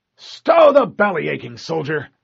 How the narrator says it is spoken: Keyes growled

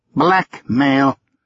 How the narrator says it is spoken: Uncle Robert said in a grim voice

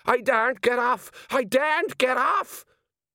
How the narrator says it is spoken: the sergeant rolled his eyes wildly and said

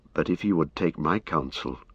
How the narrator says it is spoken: said Éomer in a low voice

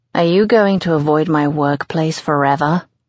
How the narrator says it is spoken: He asks sarcastically

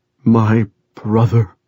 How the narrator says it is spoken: he sobbed into Chef's ear

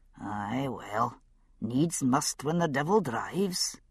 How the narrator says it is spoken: he muttered

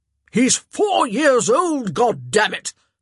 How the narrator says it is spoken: the Duke roared

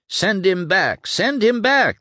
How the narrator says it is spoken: they cried, as if their shouts could be heard in the capital, 50 miles away

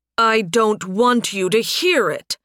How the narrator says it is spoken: Sunstorm growled

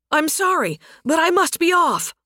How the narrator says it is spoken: the soldier shouted, already riding down the pass

